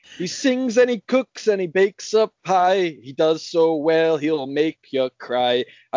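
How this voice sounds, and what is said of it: Put-on Irish accent, sung rhymes. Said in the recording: “He had the accent ... I used, like, an Irish kind of style”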